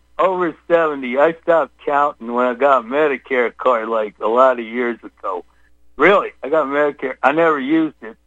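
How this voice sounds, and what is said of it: Southern Texas accent. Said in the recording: “You sound like you're not from Colorado. You sound like you're from the swamp. Are you from Louisiana? ... Where's your accent? ... Texas. In Texas. High Plains of Texas.”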